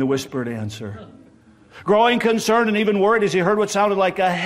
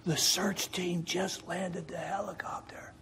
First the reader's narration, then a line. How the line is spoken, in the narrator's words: in an odd whispering voice, the child answered